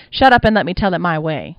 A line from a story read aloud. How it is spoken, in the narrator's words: snapped